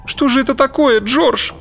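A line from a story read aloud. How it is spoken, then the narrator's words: Sobbing. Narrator (Russian): Сквозь всхлипывание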